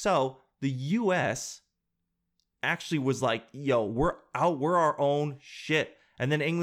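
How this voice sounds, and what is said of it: Usual voice. Nothing is said of it.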